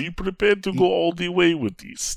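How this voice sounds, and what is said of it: Put-on Russian accent, poorly done. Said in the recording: “My terrible Russian accent.”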